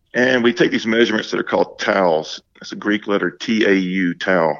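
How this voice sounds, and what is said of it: Southern accent. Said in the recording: “I have a Southern accent, so it may not sound the same.”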